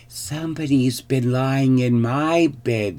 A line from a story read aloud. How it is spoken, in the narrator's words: squeaked the baby bear joyfully